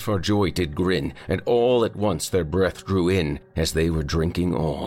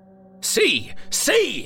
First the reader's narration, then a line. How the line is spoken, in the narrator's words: cried